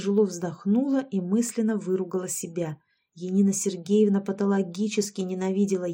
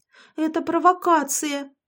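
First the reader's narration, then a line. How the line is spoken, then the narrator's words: Shrieking. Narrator (Russian): завопила Яшка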